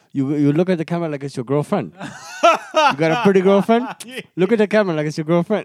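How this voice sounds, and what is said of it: Put-on thick accent. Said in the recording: “he had a very thick accent ... the only way to accurately portray tell the story is to do the accent”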